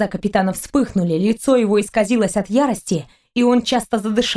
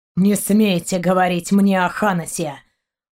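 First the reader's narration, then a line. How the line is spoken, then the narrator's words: Angry growl. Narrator (Russian): прорычал Шейн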